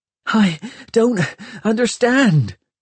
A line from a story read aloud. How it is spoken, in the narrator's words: gasped Hester, talking to herself